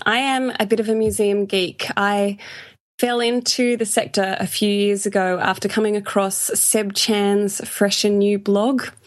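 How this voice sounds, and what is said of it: Australian English accent. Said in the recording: “you can probably tell by the accent that I am from Australia”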